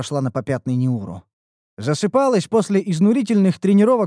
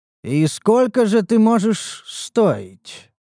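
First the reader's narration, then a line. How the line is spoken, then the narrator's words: Thoughtful drawl. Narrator (Russian): протянул я задумчиво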